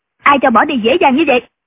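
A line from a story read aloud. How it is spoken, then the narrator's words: Woman shouting. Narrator (Vietnamese): Quan y mỹ nữ quát lên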